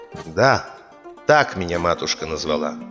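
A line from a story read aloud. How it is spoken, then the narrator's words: Calm reply. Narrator (Russian): Ондар спокойно ему отвечает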